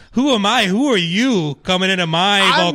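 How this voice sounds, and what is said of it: Put-on Italian accent. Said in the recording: “my generally sort of Italian accent”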